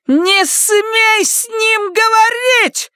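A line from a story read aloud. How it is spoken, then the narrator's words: Shouting. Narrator (Russian): закричала она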